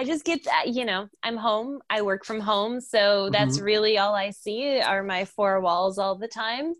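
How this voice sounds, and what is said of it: Usual voice. Nothing is said of it.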